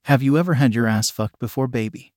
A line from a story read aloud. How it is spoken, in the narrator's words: he asked